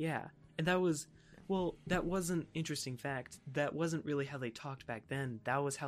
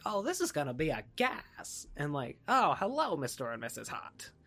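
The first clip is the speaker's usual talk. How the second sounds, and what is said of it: Old-time sitcom TV accent. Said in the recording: “their accents, like the TV accent of the time ... That was like the TV accent of the time ... in those old sitcoms, they all talk the same”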